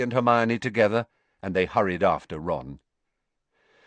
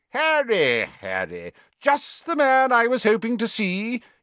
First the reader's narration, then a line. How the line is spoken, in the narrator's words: he boomed genially